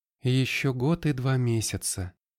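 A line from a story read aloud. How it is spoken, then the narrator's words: Sad. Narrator (Russian): грустно сказала Ванда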